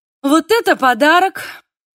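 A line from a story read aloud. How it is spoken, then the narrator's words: Exclamation. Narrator (Russian): воскликнула Ханнеке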